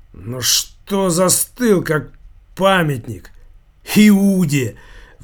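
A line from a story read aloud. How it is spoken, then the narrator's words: Loud mocking laughter. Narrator (Russian): Вор в законе расхохотался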